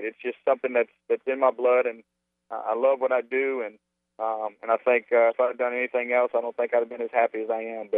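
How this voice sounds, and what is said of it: Cajun accent. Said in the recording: “with a Cajun accent”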